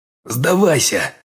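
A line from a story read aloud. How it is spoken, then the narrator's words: Growled. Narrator (Russian): прорычал я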